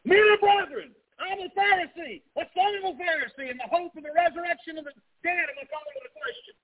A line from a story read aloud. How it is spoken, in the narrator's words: He shouts